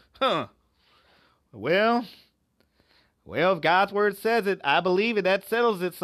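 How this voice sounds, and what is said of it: Exaggerated Southern American accent. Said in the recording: “my Southern accent is terrible”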